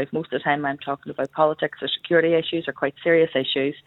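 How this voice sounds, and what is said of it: Belfast Northern Irish accent. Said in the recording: “my accent, I'm very Belfast”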